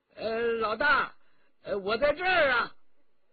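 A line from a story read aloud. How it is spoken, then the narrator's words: Resigned call. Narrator (Chinese): 顾金彪无奈，只得叫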